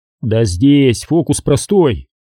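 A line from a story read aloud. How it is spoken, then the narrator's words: Plain. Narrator (Russian): сказал Сергей Хачариди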